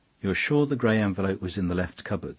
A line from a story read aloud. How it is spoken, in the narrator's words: he asked